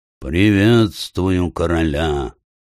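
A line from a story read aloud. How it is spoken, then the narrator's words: Strange eagle voice. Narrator (Russian): Орел произнес своим странным голосом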